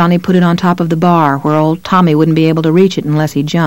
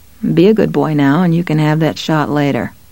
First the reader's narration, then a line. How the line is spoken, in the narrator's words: He murmured